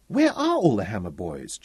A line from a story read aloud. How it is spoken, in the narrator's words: Jonathan piped